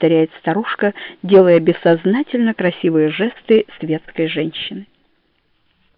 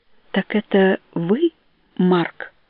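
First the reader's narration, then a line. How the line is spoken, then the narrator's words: Very soft dreamlike question. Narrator (Russian): спрашивает тихо-тихо, как во сне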